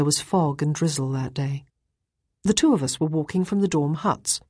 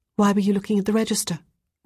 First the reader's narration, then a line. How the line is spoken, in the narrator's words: Ruth asked quickly